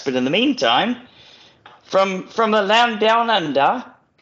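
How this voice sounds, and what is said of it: Bad put-on Australian accent. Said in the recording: “that's horrible ... You messed up the Australian intro”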